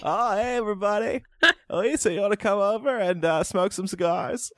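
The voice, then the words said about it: Imitates another person's voice. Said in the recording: “I can't tell if we're mocking me or Bill Clinton”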